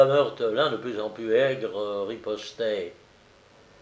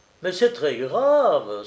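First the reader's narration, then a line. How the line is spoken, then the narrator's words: Alarmed exclamation. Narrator (French): s'exclamait le policier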